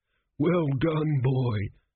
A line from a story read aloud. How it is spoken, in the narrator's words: groaned a crumbling mummy